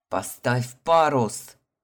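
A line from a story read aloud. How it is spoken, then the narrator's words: Growled, knight. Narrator (Russian): прорычал черный рыцарь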